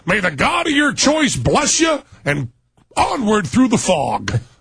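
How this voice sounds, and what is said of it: Imitates another person's voice. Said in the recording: “a pretty good Kinky impersonation there”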